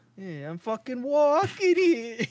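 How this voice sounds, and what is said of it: Put-on Italian-American accent. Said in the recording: “you can't do an Italian accent without dropping F bombs every 2 seconds”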